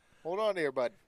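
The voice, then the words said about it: Exaggerated Canadian accent. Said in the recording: “you have to say that in the most Canadian accent you can”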